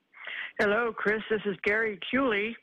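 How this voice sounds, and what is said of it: Comic character voice. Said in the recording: “Oh, no, it's Bonsai Betty. ... great impression.”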